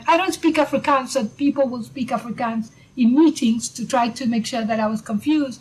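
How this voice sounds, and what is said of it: Speaks with a foreign accent. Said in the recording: “I speak with an accent, the fact that I'm not really South African”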